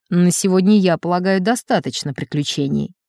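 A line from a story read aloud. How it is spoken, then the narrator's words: Dry. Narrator (Russian): сухо заключил фон Крук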